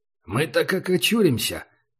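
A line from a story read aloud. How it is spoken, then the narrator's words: Muttered. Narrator (Russian): пробурчал Убер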